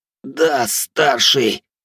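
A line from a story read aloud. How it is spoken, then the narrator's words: Hoarse, strained wheeze. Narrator (Russian): прохрипел прижатый к полу владелец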